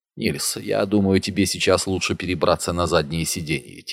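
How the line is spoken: Quiet. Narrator (Russian): тихо сказал Фритьоф

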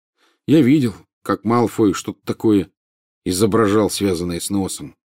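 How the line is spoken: Gloomy. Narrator (Russian): произнес он мрачно

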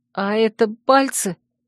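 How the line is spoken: Moaning. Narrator (Russian): Простонала я

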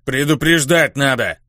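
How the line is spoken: Stunned displeased grumble. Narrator (Russian): Недовольно проворчала другая, ошарашенная

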